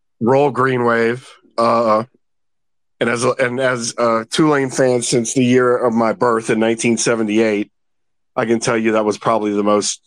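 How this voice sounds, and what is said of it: Scratchy, hoarse voice. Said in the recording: “my voice is a little scratchy from screaming my head off”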